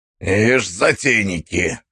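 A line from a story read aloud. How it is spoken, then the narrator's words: Snorting. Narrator (Russian): хмыкнул незнакомец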